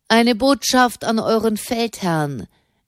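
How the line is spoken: Called back. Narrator (German): rief Fra Raymond zurück

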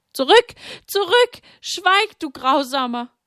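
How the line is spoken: Loud scream. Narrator (German): Sie schrie laut auf

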